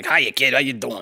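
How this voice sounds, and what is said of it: Gruff New York/New Jersey character voice. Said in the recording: “gave the voice of a New York construction worker ... he's got this, like, New Jersey accent”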